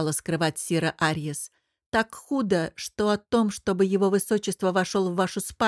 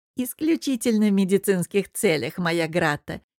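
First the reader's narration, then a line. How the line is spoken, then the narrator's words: Giggle. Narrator (Russian): хихикнула Арьес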